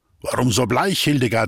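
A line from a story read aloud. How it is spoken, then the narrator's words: Plain. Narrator (German): sagte er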